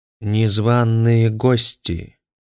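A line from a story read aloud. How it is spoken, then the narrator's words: Muffled, sharp voice. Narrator (Russian): глухо сказал Синчкава Гамит Краал голосом стилета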